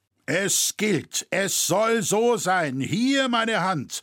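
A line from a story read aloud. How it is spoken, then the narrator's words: Smith calling out. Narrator (German): rief der Schmied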